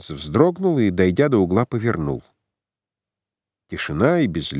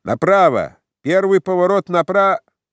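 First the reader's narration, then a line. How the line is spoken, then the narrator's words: Shouted from above. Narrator (Russian): Кто-то в уплывающих небесах, быть может, незамеченный сосед, крикнул ему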